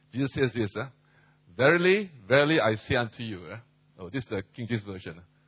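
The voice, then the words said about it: Speaks with a noticeable foreign accent. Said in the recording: “if you can't hear my accent, you can have a hard time hearing me”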